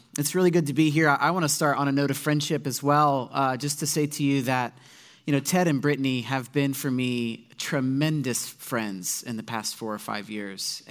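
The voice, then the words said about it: Slightly raspy voice. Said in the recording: “I have a little bit of a raspy voice this morning. I was fighting off a bit of a bug yesterday in my stomach ... my voice is a bit raspy.”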